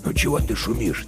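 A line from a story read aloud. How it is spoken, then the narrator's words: Quiet question to a dog. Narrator (Russian): тихо спрашивал он у пса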